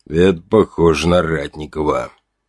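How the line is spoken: Grim, tired statement. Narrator (Russian): мрачно уставший констатировал Червин

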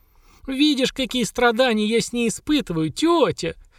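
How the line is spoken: Pitiful shout over water. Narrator (Russian): Жалостным голосом крикнула Хагра, перекрикивая шум воды

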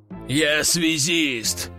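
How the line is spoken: Deep bass voice. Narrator (Russian): пробасил майор

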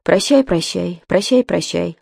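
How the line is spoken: Cooing wheels. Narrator (Russian): ворковали колеса

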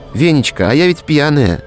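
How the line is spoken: Cheerful. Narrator (Russian): весело сказала Таня

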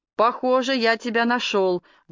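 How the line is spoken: Loud announcement. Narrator (Russian): громко объявил Хьюи

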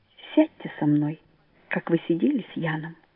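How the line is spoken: Timid boyish whisper. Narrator (Russian): шепчет он робко, как мальчик

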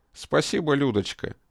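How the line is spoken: Dry general. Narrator (Russian): сухо сказал генерал

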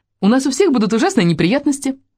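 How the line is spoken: Joyful chatter, muffled. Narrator (Russian): радостно трещала она, уткнувшись в плечо Кэрри

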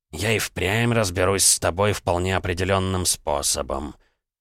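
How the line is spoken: Muttered. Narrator (Russian): пробормотал доктор

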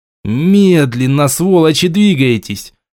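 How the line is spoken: Yelling. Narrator (Russian): заорал я

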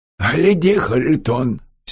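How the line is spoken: Angry woman's voice. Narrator (Russian): сердито сказала

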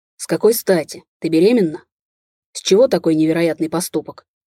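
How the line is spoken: Bark. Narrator (Russian): рявкнул Виталий

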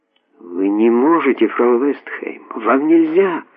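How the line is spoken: Furious whispered exclamation. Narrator (Russian): воскликнула она яростным шепотом

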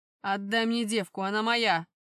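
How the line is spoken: Growling. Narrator (Russian): прорычал он

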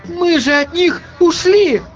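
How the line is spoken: Sudden exclamation, young woman. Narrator (Russian): неожиданно воскликнула девушка

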